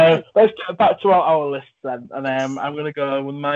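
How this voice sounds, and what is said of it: Usual voice. Nothing is said of it.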